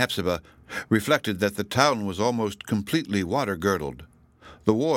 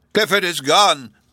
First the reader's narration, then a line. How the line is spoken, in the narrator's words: cried